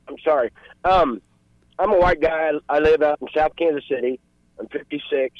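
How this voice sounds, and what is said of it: Choked-up, emotional voice. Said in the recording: “I'm getting a little choked up.”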